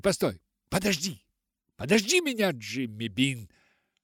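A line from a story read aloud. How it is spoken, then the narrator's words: Breathless shout. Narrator (Russian): Задыхаясь, прокричала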